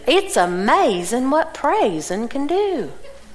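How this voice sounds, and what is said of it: Imitated Southern US accent. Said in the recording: “She's from Atlanta, so she really has a Southern accent.”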